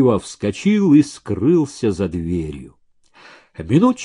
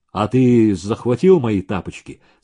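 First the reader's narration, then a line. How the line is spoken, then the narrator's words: Plain. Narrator (Russian): спросил Максимов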